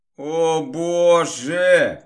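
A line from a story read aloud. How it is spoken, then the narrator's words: Moaning. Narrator (Russian): простонала магичка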